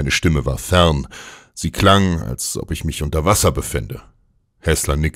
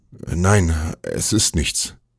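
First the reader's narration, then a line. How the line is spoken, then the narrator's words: Stammering. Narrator (German): stammelte ich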